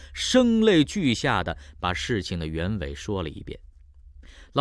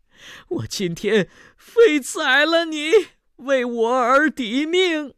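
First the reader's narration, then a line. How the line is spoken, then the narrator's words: Crying out. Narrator (Chinese): 哭喊道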